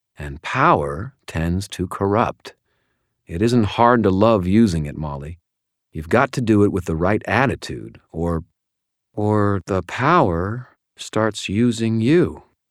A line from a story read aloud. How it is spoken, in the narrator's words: she said